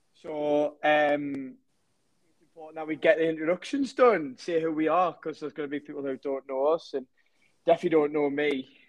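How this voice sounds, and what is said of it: Northeast English accent. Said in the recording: “I am a football coach from the Northeast, as you can tell probably by the accent.”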